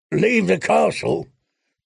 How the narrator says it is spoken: croaked one-armed Harwood Stout

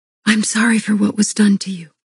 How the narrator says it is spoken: I whispered

